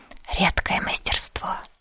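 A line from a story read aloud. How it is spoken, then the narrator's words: Whisper. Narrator (Russian): шепотом сказал Иван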